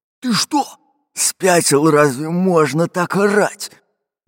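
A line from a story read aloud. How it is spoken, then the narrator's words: Fat man's growl. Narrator (Russian): прорычал толстый пират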